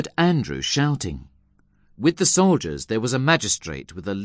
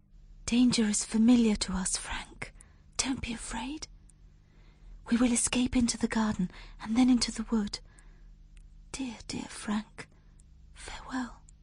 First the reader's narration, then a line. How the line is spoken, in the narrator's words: She whispered